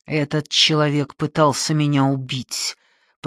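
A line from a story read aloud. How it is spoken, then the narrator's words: Hiss. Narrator (Russian): прошипел я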